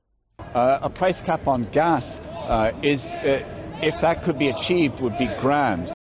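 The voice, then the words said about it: Noticeable Irish accent. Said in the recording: “a noticeable Irish accent ... pretty distinctive Irish twang”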